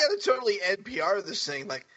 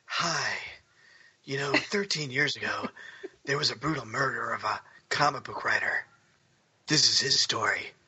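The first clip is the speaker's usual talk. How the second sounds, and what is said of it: NPR radio host voice. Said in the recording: “That's my NPR voice ... It was a good NPR voice.”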